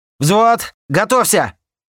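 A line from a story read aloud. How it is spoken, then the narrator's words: Shouting into microphone. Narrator (Russian): Заорал я в микрофон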